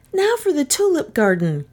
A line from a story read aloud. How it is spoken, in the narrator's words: Kay cried, who had grown a little impatient of all this houseworking